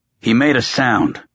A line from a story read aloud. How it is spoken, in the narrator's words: Croker snapped